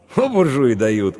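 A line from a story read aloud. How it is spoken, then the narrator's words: Snort. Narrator (Russian): хмыкнул Иван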